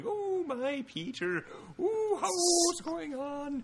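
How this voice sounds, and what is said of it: Campy old-fashioned aunt character voice. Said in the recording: “incredibly campy 60s Aunt May who's like clutching her purse”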